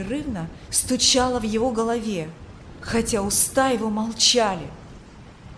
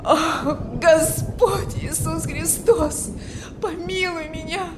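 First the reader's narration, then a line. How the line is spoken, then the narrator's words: Desperate moaning. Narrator (Russian): Стонал он в отчаянии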